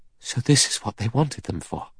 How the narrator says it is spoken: Vera whispered

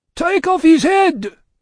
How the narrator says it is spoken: cried the audience

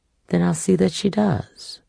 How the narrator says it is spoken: Setha sighed

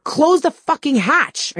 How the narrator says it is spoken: I screamed over the wind

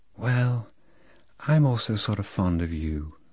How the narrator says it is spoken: said Lolita in a delayed, soft voice, with a sort of sigh

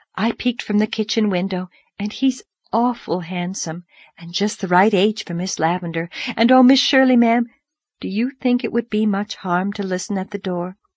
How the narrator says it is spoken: breathed

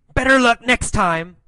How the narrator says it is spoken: Alan yelled

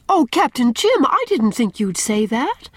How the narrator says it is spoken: she exclaimed reproachfully

